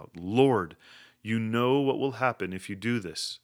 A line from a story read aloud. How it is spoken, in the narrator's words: a third attendant cried out